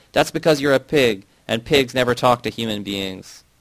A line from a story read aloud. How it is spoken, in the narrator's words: I got furious, banging on the door with all the strength in my arms, I shouted